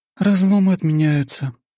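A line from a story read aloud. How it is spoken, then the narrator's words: Regretful sigh. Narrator (Russian): вздохнула Аня, похоже, с сожалением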